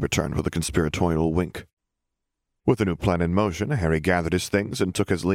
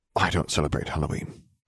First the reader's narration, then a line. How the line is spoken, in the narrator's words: he muttered